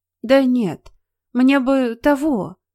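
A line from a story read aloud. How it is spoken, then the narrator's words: Repeating. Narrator (Russian): Вновь повторила Настя, неуверенно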